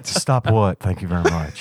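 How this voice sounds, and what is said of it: Imitates Elvis-style voice. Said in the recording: “that Elvis accent ... Stop that accent now.”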